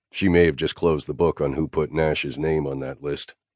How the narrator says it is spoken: I said, keeping my voice low

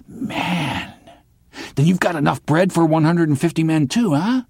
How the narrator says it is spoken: he whispered hoarsely

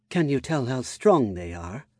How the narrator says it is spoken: she asked, in concern, her voice like a soft melody

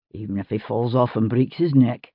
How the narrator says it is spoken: he muttered to himself

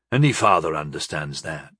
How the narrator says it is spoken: he said gently

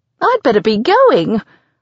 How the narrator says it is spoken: I blurt, my voice high and squeaky

